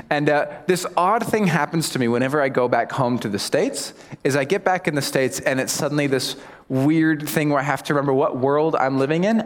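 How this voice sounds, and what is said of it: American accent. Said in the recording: “my accent gives me away. So obviously I'm American”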